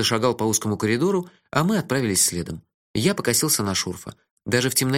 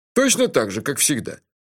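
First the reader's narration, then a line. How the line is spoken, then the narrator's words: Proud, then laughing. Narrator (Russian): Гордо заявил он и тут же снова рассмеялся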